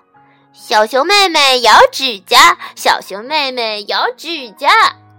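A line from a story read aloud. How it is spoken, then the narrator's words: Children teasing. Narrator (Chinese): 梨子和其他的几个孩子指着小熊妹妹开玩笑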